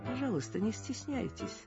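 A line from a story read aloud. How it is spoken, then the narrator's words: Calm. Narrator (Russian): спокойно сказал Ермилов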